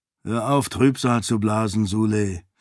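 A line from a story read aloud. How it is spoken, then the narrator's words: Groaning. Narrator (German): meinte Galadon mit einem Stöhnen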